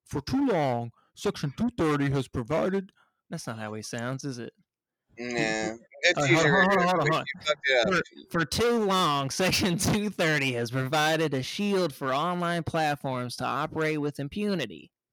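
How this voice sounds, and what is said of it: Big guy voice impersonation. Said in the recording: “I'm going to try to do my William Barr. He's kind of a big guy ... this is my big guy impersonation ... That sounds like Nixon.”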